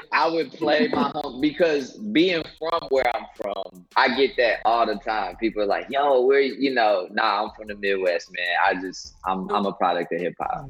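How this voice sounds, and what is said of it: New York accent. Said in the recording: “the accent ... Because it's straight New York.”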